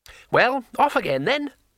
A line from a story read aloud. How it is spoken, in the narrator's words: said Twoflower cheerfully